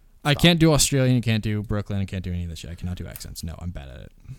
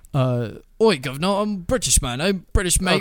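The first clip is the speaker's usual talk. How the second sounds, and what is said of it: Put-on British accent, not very good. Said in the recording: “No British, no nothing. ... not that bad, fucking bad.”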